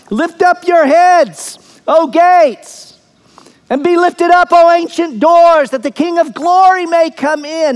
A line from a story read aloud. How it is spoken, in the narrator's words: it's probably David who shouts